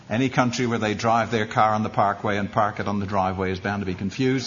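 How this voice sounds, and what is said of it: British English accent. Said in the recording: “so you get used to this accent. ... it's nice to be back in the colonies”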